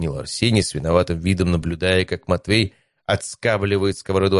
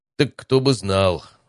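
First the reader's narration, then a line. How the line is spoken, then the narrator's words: Sigh. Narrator (Russian): вздохнул Матвей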